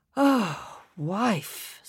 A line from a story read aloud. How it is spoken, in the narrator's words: sighed Mr